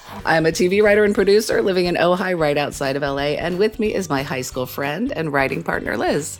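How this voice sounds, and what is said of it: Sick, unwell-sounding voice. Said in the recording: “I am currently not feeling great, as you can hear in my voice. ... when we sound the way you sound right now.”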